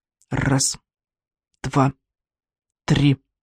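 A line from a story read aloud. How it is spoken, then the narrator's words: Whisper. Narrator (Russian): прошептал Клякса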